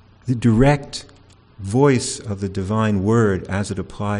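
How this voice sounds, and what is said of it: Usual voice. Nothing is said of it.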